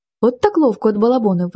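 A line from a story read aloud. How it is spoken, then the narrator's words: Exclaim. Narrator (Ukrainian): вигукнув Дмитро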